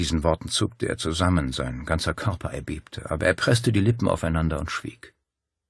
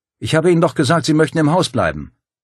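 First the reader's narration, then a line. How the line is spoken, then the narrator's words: Calling out. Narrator (German): rief Paul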